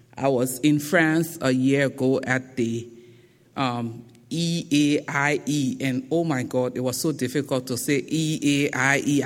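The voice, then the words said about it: Thick Liberian accent. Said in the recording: “my thick Liberian accent”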